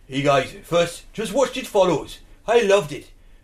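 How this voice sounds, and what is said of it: Put-on South Welsh accent. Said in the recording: “Do you want to do it in a South Welsh accent? ... Well, let's do it Welsh.”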